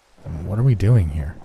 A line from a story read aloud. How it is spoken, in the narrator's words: I asked